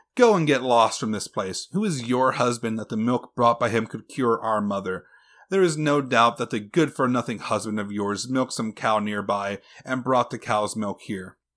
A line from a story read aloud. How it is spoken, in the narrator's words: The elder sisters started laughing at their little sister and told her